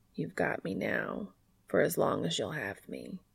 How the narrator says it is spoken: he murmurs

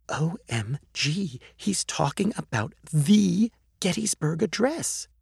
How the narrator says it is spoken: whispered

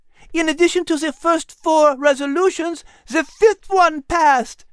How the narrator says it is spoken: Liz exclaimed

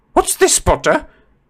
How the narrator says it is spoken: said Professor McGonagall sharply

